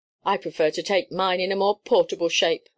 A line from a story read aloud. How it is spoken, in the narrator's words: answered Ralston, grimly